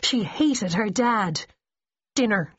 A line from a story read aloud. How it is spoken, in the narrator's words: she growled